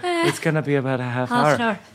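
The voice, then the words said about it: Imitated Irish accent. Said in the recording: “he's Irish ... I immediately impersonate.”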